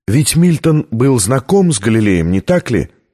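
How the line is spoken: Plain. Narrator (Russian): спросила Витория

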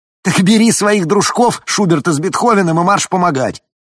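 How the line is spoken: Yelled down a corridor. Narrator (Russian): заорал кому-то в коридоре

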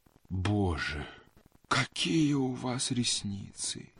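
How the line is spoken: Sighing. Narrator (Russian): вздохнул адъютант

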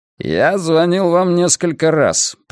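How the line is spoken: Through gritted teeth. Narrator (Russian): процедил Сальмон

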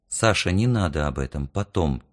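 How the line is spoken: Quiet, hurried. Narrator (Russian): тихо и торопливо сказала мама

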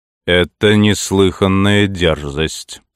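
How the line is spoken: Hardened, harsh king. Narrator (Russian): сказал король, снова ожесточившись

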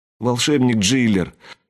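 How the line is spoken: Whimpering fearfully. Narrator (Russian): захныкала Рэчел, ожидая, что сейчас он уничтожит ее

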